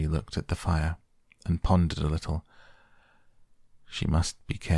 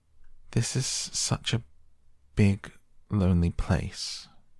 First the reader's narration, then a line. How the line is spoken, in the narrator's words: she said slowly, as if she were turning matters over in her mind